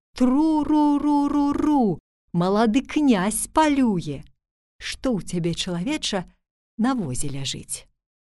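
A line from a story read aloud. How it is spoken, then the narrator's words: Fox shouting. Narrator (Belarusian): тая ліска ... зноў крычыць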